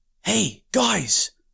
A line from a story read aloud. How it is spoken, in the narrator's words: he whispered to Wilfred and Boo